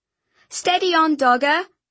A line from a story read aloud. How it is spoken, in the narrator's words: I called out